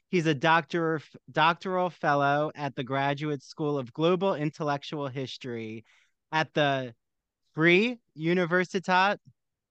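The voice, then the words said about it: Northeast Jersey / New York accent. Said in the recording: “I'm doing my Northeast Jersey, New York now accent”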